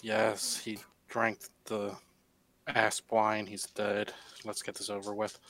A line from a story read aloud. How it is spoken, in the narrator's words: Mutters under his breath